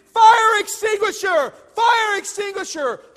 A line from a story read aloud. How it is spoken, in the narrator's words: They started screaming